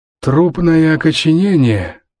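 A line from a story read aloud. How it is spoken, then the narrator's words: Hoarse wheeze. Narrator (Russian): прохрипел Саймон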